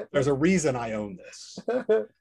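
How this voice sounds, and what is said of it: Impression of Office Space character. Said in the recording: “Good impression.”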